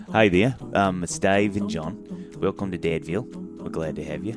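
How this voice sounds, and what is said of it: Poor attempt at Australian accent. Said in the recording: “your best Australian accent ... I can't do the Australian accent”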